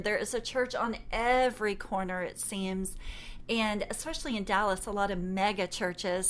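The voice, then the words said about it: Texan Southern American accent. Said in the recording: “I'm from Texas, and I don't know if you can tell through me saying y'all or my accent”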